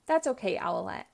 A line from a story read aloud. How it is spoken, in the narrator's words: Catboy says